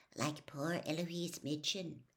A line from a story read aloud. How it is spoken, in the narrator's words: said Hannah Abbott, a Hufflepuff, in a hushed voice